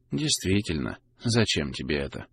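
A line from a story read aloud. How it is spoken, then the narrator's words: Ambiguous tone. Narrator (Russian): С непонятной интонацией повторил парень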